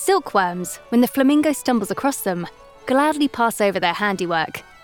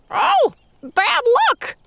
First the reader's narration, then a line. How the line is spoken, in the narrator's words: screeches the flamingo